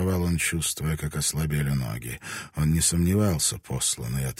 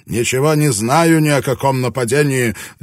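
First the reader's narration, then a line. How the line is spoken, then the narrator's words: Passionate shout. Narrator (Russian): закричал он страстно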